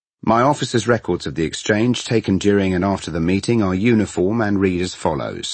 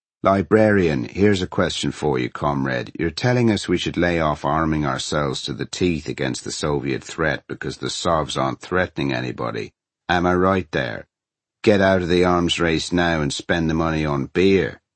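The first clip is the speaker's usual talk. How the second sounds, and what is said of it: Irish accent. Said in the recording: “Irish accent”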